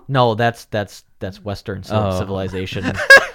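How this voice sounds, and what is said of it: Deep, hardcore Yooper accent. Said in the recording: “Youper accent. So it's like super hardcore ... it's just deep and like, you can tell it's like a Southern accent, but a Northern Southern accent”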